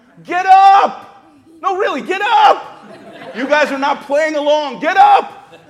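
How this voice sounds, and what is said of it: Loud shouting. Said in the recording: “Do I have to say it louder?”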